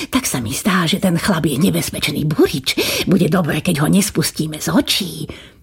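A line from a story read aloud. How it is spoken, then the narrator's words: Whispering in ear. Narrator (Slovak): pošepkal kniežaťu do ucha kastelán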